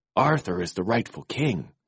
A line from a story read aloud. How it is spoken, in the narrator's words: murmured